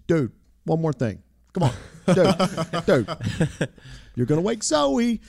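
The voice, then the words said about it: Imitates another person's voice. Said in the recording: “great John Morley impersonation.”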